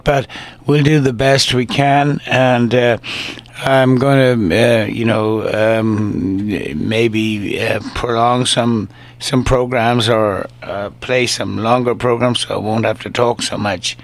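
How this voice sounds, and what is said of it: Strained, congested sick voice. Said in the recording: “my voice, I've got the flu and I've got a cold in my chest, so my voice is not really working too well tonight”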